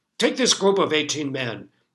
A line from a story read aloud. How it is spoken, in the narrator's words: the judge barked